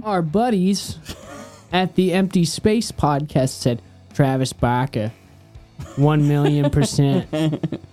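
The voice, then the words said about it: Boston accent, Peter Griffin impression. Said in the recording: “such a great Boston accent ... That was terrible ... That was my Peter Griffin”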